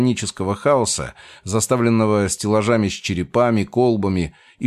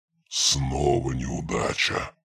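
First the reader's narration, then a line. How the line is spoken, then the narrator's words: Low muffled mutter, weary resolve. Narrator (Russian): пробормотал, его голос, глухой и низкий, был полон усталой решимости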